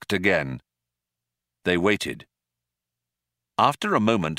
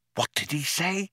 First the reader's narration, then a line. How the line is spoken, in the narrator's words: whispered Ford in astonishment